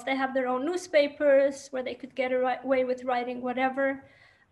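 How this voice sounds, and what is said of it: Yiddish-influenced English accent. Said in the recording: “Yiddish is my first language, in case anyone detected the accent. It's always the question, where is your accent from?”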